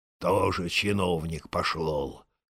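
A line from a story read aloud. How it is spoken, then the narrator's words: Grumbling. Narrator (Russian): ворчал он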